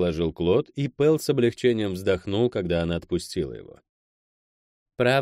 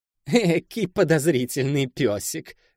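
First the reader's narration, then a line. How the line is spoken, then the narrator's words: Laughing. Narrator (Russian): рассмеялась Сойка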